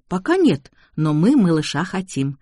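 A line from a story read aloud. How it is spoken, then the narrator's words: Laughing. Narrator (Russian): засмеялась Лена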